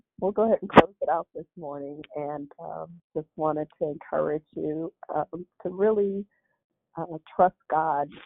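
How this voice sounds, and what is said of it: Hoarse, nearly lost voice. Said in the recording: “my voice is almost gone.”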